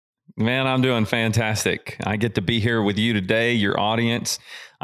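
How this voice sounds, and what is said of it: Southern American accent. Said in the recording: “from your accent, I know you're from the South”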